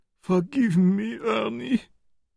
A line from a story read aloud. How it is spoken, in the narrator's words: sobbed